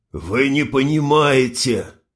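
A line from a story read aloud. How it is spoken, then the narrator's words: Hoarse wheeze. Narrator (Russian): прохрипел Нютин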